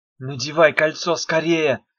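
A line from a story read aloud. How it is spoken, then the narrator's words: Hissing. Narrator (Russian): зашипела Дафна на Мефа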